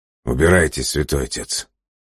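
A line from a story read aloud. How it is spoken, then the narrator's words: Tired. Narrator (Russian): сказал он устало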